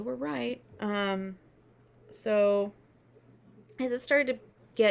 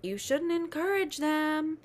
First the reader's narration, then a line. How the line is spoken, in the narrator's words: Somebody at the camp kind of yells